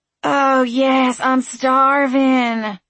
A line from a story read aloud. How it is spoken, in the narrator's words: Frankie moaned dramatically